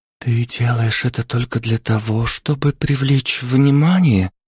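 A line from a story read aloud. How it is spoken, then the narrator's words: Whisper. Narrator (Russian): прошептала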